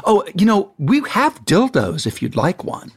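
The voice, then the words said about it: Put-on English accent. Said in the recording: “Why does your prop person all of a sudden have an English accent?”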